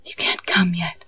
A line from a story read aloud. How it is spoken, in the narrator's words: Molly whisper